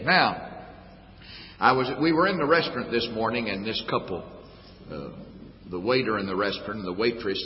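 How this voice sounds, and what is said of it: Southern US accent. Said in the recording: “you sound different from other people from the States. And I guess it's our southern accent. ... us southerners”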